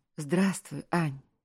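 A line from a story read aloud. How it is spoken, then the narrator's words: Delighted smiling exclamation. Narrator (Russian): восторженно воскликнул он, улыбаясь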